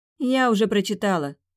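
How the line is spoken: Snorted. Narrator (Russian): фыркнула

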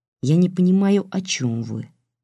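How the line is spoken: Calm. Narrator (Russian): спокойно сказал Сергей, решив не поддерживать всеобщего безумства семьи Гейдманов

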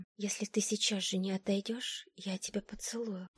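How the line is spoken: Whisper. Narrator (Russian): прошептала я

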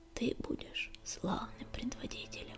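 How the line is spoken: Barely audible whisper. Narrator (Russian): еле слышно шептала синяя звезда

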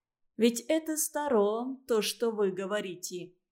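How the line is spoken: Speaking quickly. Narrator (Russian): быстро заговорила Анна

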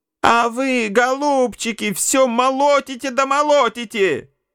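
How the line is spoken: Shouting. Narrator (Russian): Крикнула она на молотильщиков

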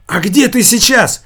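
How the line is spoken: Shout. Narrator (Russian): выкрикнул Манжелли

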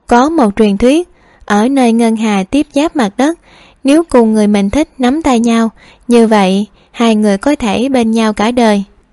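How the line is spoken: Smiling. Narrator (Vietnamese): Hạ Lan Vi mỉm cười nói

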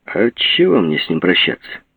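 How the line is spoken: Cold. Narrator (Russian): холодно сказал Жеглов

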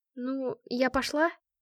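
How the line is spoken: Timid tentative question. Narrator (Russian): Робко закинула я удочку

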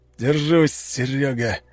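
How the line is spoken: Through gritted teeth. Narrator (Russian): процедил Панкратов сквозь зубы

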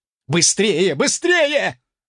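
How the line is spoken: Yell from behind. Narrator (Russian): заорал кто-то позади меня

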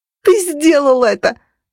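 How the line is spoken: Yelling. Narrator (Russian): завопила я

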